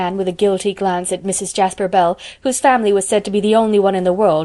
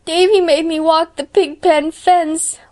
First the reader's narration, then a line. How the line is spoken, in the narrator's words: wailed Dora